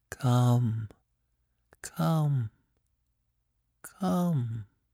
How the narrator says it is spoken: someone was whispering in my very ear

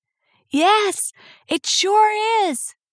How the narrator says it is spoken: she had shouted back

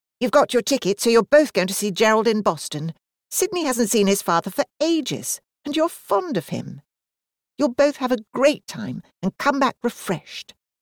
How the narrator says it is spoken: Daisy said firmly

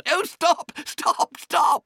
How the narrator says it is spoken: cried the Mole in ecstasies

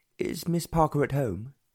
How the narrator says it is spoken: asked the Earl anxiously

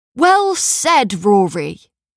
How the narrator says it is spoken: shouted one

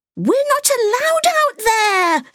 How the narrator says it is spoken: Sophia screamed

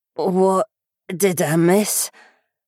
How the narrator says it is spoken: Jen croaked

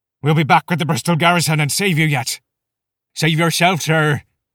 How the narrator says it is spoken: an elderly pikeman shouted in reply

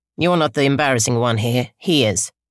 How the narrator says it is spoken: she had said

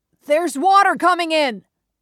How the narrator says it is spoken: shouted up

